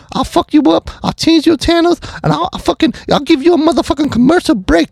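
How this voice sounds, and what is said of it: Bad Mike Tyson impression. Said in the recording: “my fucking horrible Mike Tyson impersonation”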